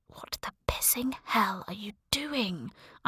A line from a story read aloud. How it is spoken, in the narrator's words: I hissed at myself